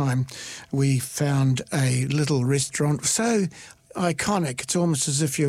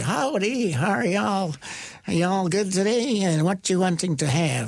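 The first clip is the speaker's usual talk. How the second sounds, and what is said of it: Put-on American regional accent. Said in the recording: “your accent's in the wrong part of the country”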